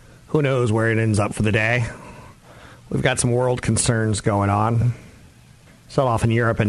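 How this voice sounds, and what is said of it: Usual voice. Nothing is said of it.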